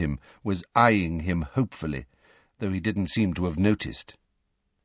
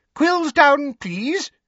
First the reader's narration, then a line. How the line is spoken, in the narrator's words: squeaked Professor Flitwick